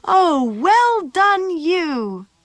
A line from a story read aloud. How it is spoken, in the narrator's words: Matilda cried